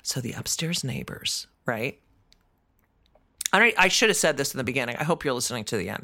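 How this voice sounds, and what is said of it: Whispering. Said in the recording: “I'm whispering right now”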